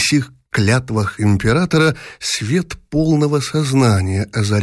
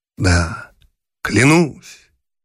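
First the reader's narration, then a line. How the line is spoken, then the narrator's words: Solemn. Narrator (Russian): торжественно продолжал Павел Петрович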